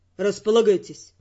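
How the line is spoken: Gloomy, curt. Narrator (Russian): мрачно бросил нам с Родригом Эрл

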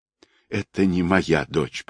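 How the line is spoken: Woman's whisper. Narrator (Russian): прошептала женщина

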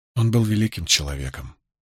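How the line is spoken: Quiet. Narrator (Russian): тихонько произнесла Илайн

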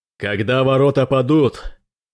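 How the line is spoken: Captain shouting. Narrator (Russian): крикнул капитан пропавший

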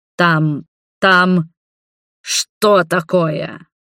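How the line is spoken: Irritated growl. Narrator (Russian): прорычал раздраженно Роберт

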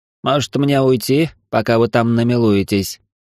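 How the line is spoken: Grumble. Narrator (Russian): проворчал Виллион

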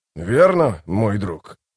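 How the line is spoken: Thoughtful snort. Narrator (Russian): Дуджик задумался и хмыкнул

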